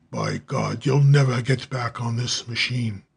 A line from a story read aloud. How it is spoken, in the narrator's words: as the German roared